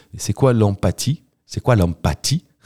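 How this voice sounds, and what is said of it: Put-on accent. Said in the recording (French): “Qu'est-ce que c'est que cet accent ? Vous me faites peur quand vous faites les accents”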